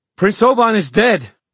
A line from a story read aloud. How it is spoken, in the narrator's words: she shouted